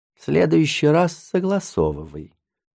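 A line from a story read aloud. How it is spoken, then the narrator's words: Very soft, old man. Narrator (Russian): очень мягко сказал дед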